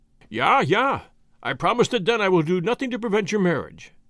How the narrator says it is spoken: answered Marais eagerly, like one who has suddenly seen some loophole of escape from an impossible position

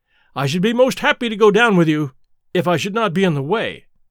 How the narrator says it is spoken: said I

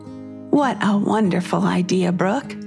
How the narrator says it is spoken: said Mabel

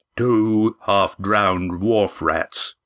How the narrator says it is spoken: he rumbled in a deep bass voice

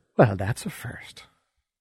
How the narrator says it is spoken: Isis whisper

